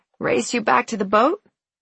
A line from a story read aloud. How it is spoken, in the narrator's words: I said, a little raspy